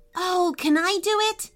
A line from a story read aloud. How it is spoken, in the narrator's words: asked MJ excitedly